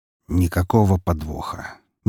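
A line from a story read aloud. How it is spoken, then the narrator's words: Low voice. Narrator (Russian): низким голосом проговорил барон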